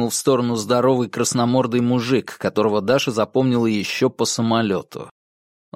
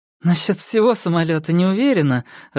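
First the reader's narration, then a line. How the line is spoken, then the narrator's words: Laughing. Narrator (Russian): рассмеялась Даша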